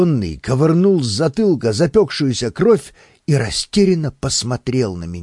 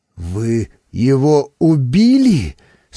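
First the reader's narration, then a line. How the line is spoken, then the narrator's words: Trembling voice question. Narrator (Russian): спросил он дрогнувшим голосом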